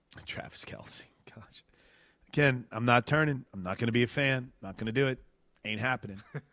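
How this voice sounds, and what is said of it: Rough, hoarse voice. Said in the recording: “My voice is a little bit rough on Mondays after a late night Sunday night.”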